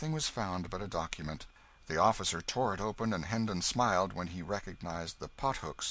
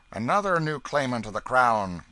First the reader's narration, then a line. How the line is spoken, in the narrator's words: cried the officer